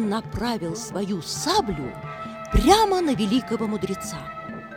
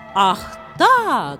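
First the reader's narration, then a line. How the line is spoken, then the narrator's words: Shout. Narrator (Russian): закричал Равана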